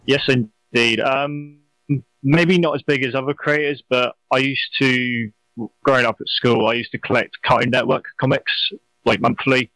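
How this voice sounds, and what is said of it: British accent. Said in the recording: “with that accent, as people heard, probably know that you're not from the United States ... over there in the UK”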